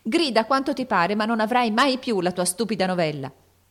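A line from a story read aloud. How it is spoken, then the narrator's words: Excited shout. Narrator (Italian): gridò eccitandosi a sua volta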